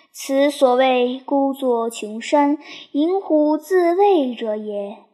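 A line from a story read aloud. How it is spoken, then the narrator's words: Sighing lament. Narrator (Chinese): 严颜存心而叹曰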